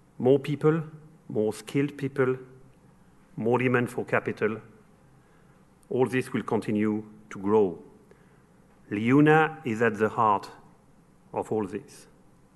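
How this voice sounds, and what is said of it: French-accented English. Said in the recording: “You've probably noticed from my accent that I'm French.”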